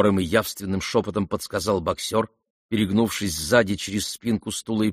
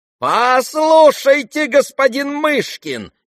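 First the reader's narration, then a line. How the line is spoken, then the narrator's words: Shrieking. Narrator (Russian): визжал Ипполит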